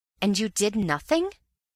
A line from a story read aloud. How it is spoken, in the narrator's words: I exclaimed